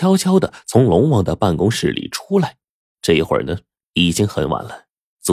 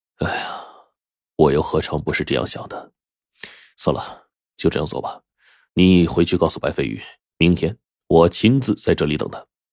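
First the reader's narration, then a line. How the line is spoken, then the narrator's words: Sighing. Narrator (Chinese): 龙王叹了口气说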